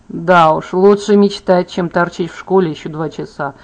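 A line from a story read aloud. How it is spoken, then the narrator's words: Plain. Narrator (Russian): сказал Бен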